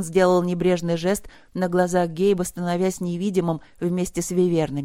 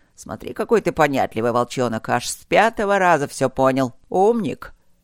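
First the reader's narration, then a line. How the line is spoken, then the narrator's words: Growling. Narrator (Russian): Гейб рыкнул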